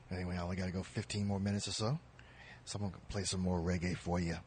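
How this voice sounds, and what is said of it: Strained, hoarse, fading voice. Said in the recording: “I'm about to lose my voice, but I've been kind of sick today.”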